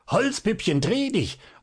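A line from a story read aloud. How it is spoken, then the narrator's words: Terrible voice, constant screaming. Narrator (German): Der schrie mit fürchterlicher Stimme immerfort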